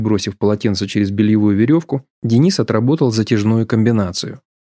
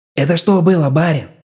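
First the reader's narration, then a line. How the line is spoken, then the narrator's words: Strangled delighted wheeze. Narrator (Russian): Округлив глаза от восторга, сдавленно прохрипел Федька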